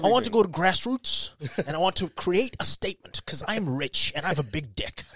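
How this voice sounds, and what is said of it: Imitates another person's voice, odd American English. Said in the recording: “that's actually a pretty good impression of ... He's got this weird kind of American English.”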